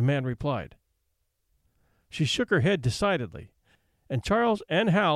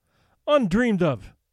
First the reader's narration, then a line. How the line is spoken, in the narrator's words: cried Mercedes in dainty dismay